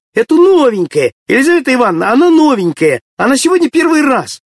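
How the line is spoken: Many voices shouting. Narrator (Russian): Со всех сторон закричали

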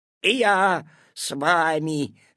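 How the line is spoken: Growling. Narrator (Russian): зарычал куцый

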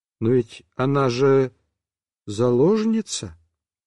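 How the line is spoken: Timid questioning. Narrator (Russian): сказал так робко и с вопросом

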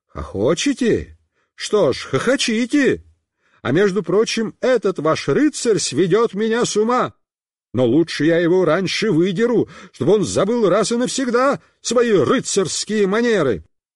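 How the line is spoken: Shouted. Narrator (Russian): папа закричал

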